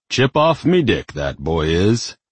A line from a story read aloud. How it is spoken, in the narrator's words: The demon just laughed and declared